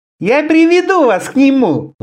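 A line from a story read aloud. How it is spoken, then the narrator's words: High shrill voice. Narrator (Russian): заверил он ее высоким визгливым голосом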